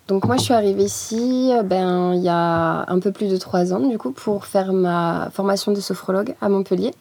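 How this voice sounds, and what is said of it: Slight southern French accent. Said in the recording (French): “t'as quand même un petit accent du Sud”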